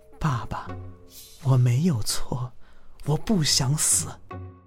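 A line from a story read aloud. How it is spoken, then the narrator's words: Very soft but clear. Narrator (Chinese): 那声音很小，却格外清晰，就像贴在我的耳边说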